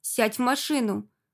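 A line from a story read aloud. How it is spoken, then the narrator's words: Barked shout. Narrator (Russian): гаркнул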